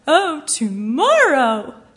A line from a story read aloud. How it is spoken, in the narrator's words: Thomas wailed